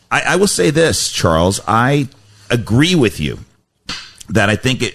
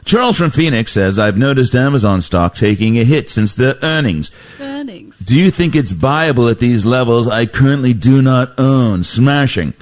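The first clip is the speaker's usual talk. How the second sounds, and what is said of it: Put-on British accent. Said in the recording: “I don't know why I had the British accent”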